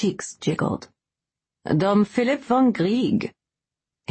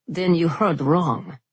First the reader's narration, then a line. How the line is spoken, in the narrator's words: Merrick answered, his voice dangerously cool for anyone who knew the Nihar family rage